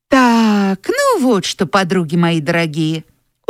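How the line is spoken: Tired. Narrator (Russian): устало сказала Тося

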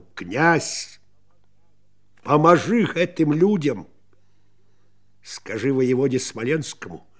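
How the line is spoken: Confident clear voice. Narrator (Russian): упевненным голосом у ладарки без охриплости сказала воеводе Виленскому Александру

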